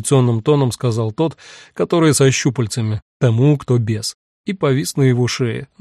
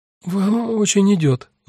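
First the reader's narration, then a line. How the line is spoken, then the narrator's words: Forced out, hesitant. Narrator (Russian): наконец выдавила Саша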